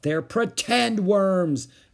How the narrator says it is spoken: yelled Ramona

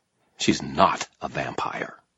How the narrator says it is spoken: I snarled

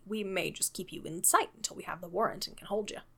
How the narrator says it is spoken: said the inspector quietly

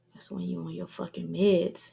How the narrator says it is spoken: he mumbles

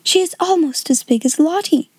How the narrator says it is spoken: someone gasped

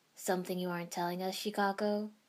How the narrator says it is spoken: Sensei asked dryly

